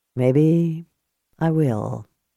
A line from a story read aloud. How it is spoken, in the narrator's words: he said softly